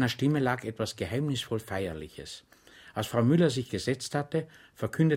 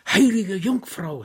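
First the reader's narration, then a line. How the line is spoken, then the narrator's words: Woman shrieking. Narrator (German): schrie Frau Müller auf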